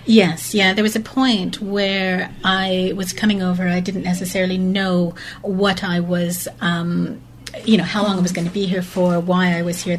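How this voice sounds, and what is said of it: Lovely, pleasant accent. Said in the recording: “a beautiful accent as well ... It's lovely, isn't it? ... Yeah, really nice.”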